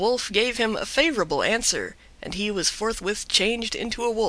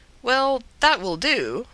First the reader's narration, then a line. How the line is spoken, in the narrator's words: said Manabozho